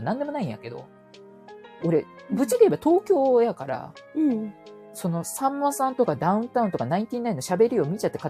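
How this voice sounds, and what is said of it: Kansai dialect speech. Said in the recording (Japanese): “関西弁でもええって”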